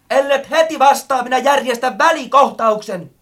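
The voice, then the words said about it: Threatening shout. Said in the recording (Finnish): “Möttönen huusi jo hyvin uhkaavalla äänellä.”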